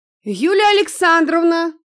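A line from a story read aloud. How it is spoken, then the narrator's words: Shouted out. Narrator (Russian): выкрикнул он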